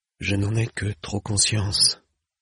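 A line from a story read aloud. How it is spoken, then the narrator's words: Sighed. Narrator (French): soupira le bachelier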